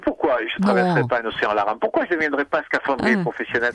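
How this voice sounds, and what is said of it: Corsican accent. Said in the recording (French): “vous reprenez votre accent corse ... il a toujours l'accent corse”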